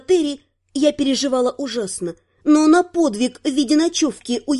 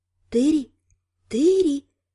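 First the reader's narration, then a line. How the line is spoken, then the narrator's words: Moan. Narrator (Russian): Застонал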